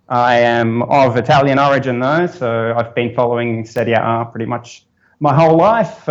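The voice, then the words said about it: Australian accent. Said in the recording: “As you might have known from the accent, I come from the land down under. I'm from Brisbane, Australia.”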